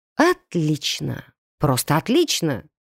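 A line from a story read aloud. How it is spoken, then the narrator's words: Inner growl. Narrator (Russian): Мысленно прорычала я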